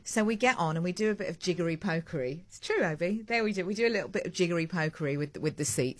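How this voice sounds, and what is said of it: British accent. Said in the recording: “you ask in your British accent”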